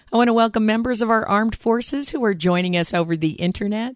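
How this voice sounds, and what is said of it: Rough voice with a cold. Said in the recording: “as you can probably hear, I'm nursing a good old fashioned winter cold, so my voice is a little sketchy today”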